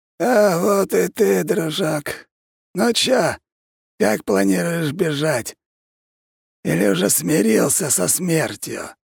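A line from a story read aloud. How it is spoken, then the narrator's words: Raspy voice, long unused. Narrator (Russian): Судя по сиплому голосу, он давно отсюда не выходил и ни с кем не общался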